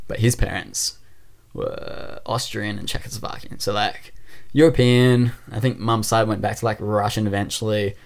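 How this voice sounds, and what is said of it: Australian accent. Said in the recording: “unless you heard my accent, then you're clearly Australian”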